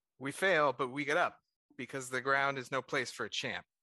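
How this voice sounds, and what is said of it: Attempted Louisiana accent. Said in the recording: “I can't do an impression ... I can't do a Louisiana accent.”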